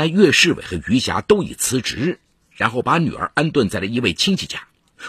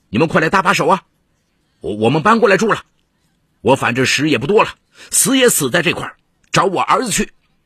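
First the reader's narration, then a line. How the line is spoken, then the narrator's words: Shouting. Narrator (Chinese): 岳世伟下了车就喊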